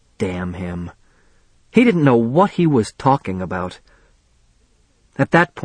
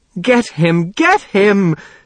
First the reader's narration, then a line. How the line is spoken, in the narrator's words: Niemer screeched